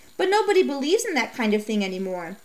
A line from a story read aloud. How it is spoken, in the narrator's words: Norman scoffed